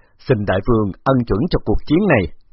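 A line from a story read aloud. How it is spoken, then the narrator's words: Loud laugh, then calm. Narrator (Vietnamese): Phục Nang Đà ngửa mặt lên trời cười lớn rồi ung dung nói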